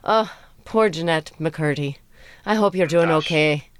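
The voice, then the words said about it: Put-on Irish accent. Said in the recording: “I just did that. Irish accent. ... Irish accent.”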